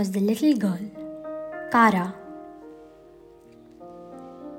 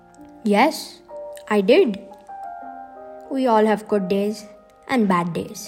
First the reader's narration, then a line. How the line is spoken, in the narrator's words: said Cliff